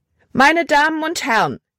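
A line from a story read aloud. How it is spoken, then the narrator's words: Loud call. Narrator (German): rief sie laut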